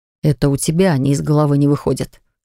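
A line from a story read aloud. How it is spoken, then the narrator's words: Snorting grunt. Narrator (Russian): хмыкнул староста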